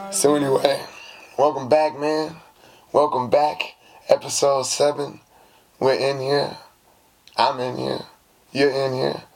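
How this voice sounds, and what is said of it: Hoarse, recovering voice. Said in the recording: “I lost my voice,... It was gone... Still trying to recover.”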